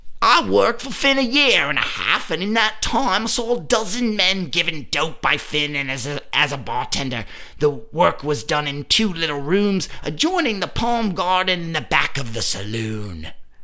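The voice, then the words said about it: Shifting New York and Irish accent. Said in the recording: “What accent was that? ... It sounded like New York and then Irish and then not.”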